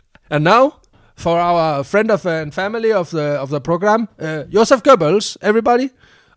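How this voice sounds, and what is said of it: English with put-on German accent. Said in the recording (Danish): “Og så igen med engelsk med tysk accent. Vi skal arbejde på vores tyske.”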